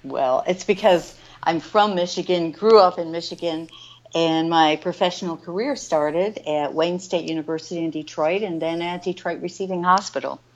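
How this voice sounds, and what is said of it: Slight Michigan accent. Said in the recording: “I notice a little accent in your voice, and I want to think it's Michigan”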